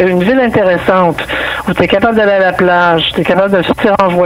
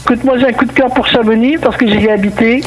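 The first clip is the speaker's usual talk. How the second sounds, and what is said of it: European French accent, no Québécois accent. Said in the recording (French): “je peux parler à la française aussi... un Québécois qui parle sans accent... ça change tout”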